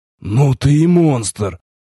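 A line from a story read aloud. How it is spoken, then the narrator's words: Breathed out. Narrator (Russian): наконец выдохнул напарник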